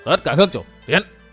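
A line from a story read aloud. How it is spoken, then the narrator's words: Raised commanding voice. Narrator (Vietnamese): Giang Nam đường chủ Huyết Ma Bang Cửu Kỳ cao giọng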